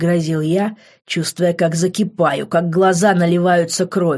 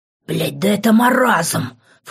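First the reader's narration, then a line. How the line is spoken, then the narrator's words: Shocked whisper. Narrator (Russian): в шоке прошептал я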